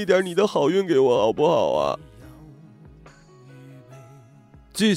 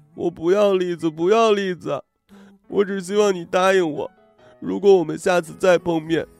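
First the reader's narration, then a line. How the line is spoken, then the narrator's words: Tearful. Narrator (Chinese): 我扬起那张哭花的脸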